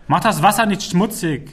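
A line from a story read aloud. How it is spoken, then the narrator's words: Calling after someone. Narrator (German): rief ihm Rahel hinterher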